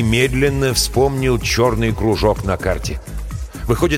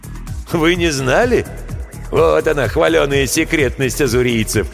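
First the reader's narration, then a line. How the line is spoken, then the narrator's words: Hoarse laughter. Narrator (Russian): хрипло рассмеялся Гемильтен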